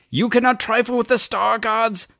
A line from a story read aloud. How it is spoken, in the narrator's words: Freya von Raider was screaming now